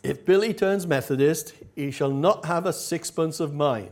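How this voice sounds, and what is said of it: Put-on accent for quoted line. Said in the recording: “I'm not sure what accent that was, but... Tell me afterwards if you recognize it.”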